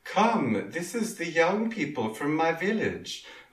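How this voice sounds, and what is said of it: Slight put-on Swedish accent. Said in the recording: “that was verging on an accent... I think we could do a Swedish accent”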